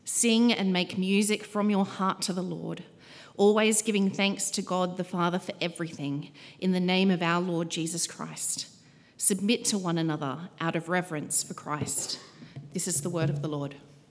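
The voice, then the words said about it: Australian accent. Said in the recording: “the first Australian accent we've heard tonight”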